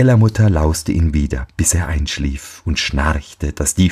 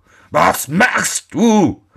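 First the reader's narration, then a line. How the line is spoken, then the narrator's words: Devil's angry shout. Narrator (German): schrie der Teufel zornig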